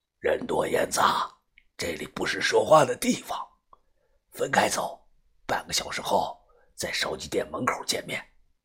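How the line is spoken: Lowered voice. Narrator (Chinese): 他压低了声音

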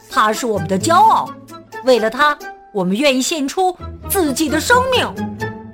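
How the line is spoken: Group shouting. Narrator (Chinese): 他们喊道

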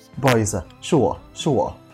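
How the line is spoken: Hurried low explaining. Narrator (Chinese): 低声急促的解释着

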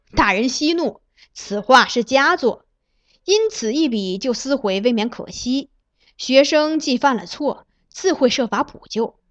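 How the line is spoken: Laughing. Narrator (Chinese): 崔白……笑道

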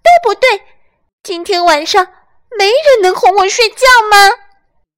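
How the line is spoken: Loud shout. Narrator (Chinese): 他大声叫起来

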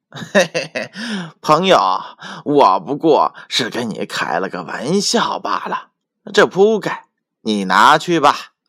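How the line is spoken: Laughing. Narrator (Chinese): 毛开笑着说

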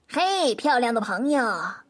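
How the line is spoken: Loud, cheerful. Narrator (Chinese): 列娜大声的对松鼠说

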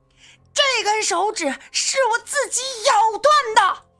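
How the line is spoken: Tearful, explosive roar. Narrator (Chinese): 压抑了许久的周炳坤眼角含泪，忽然颤抖着自己的左手，暴喊一声

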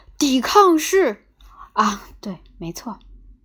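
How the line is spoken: Deep-breath roar. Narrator (Chinese): 他吸入满肺的空气，咆哮道

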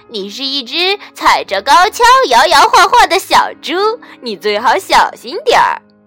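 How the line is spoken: Loud laughing zebra. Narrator (Chinese): 斑马大笑着说

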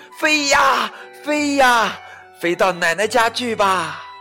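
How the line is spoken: Loud calling. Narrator (Chinese): 莎娜大声的叫着

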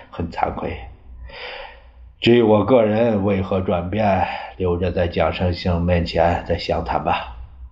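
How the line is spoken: Sighing. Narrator (Chinese): 张学良也叹道

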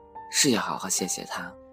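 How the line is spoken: Soft, embarrassed reply. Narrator (Chinese): 王凯涨红了脸，轻声的回答

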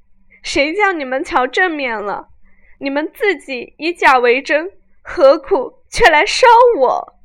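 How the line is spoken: Crying. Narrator (Chinese): 正哭着

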